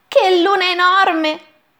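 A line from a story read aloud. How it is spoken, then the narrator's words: Exclaimed. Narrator (Italian): esclama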